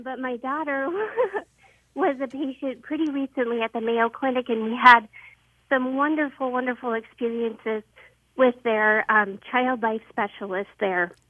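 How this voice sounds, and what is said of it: Breathless, out-of-breath speech. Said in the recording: “I'm out of breath. ... I just ran up the stairs.”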